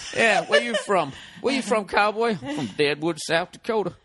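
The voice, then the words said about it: Bad cowboy accent. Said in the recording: “That's a bad accent. That wasn't sexy at all”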